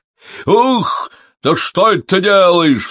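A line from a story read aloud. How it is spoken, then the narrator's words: Angry devil's cry. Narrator (Russian): вскрикнул разгневанный черт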